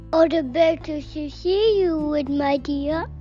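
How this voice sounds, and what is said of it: Wolf putting on granny voice. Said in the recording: “in his granny voice”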